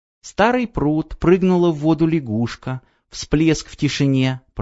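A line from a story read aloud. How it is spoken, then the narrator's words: Whispered. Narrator (Russian): прошептала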